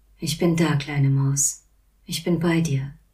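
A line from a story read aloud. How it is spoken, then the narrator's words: Murmured. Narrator (German): murmelte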